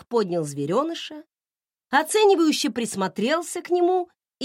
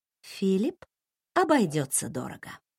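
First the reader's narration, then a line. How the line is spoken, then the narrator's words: Quiet announcement. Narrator (Russian): тихо оповестила я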